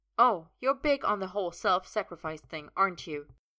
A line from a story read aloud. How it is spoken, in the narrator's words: Merlin says bitterly